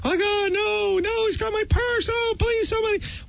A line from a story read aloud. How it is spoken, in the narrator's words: a young woman's voice from the street screaming